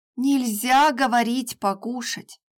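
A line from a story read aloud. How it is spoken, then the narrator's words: Muttering. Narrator (Russian): пробурчала Маша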